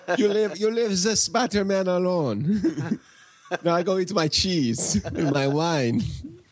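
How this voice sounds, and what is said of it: Terrible put-on French accent. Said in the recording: “French accents ... another terrible accent”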